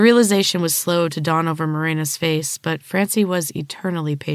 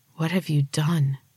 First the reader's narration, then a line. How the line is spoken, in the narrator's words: gasped